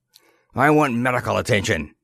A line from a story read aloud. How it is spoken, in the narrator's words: snapped the other, cradling his seared hand to his chest